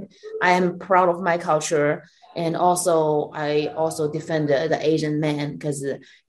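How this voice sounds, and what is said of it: Chinese accent. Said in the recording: “I have an accent... This bitch has a Chinese accent”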